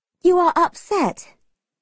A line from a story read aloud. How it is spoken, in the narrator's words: Margaret said sadly